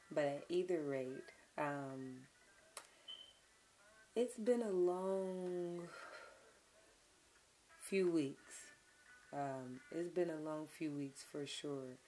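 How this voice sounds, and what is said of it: Weak voice, still recovering. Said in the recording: “My voice is slowly coming back, thankfully. I've been drinking my teas and stuff like that to help bring it back.”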